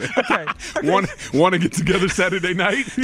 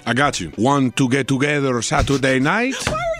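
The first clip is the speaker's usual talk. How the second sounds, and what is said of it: Put-on Latino-sounding accent. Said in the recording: “Using that voice. ... Oh, not that accent. ... He's Latino, but stop using that voice.”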